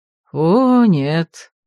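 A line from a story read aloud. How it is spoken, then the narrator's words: Smiling drawl. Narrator (Russian): с улыбкой протянул советник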